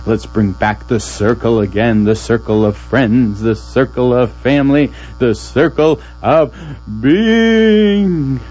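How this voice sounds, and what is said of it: Radio host voice. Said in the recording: “This is my radio voice.”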